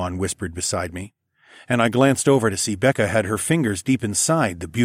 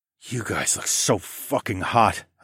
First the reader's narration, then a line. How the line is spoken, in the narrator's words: I moaned